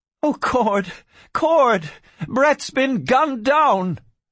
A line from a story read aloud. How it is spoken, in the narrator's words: Barbara Kincaid cried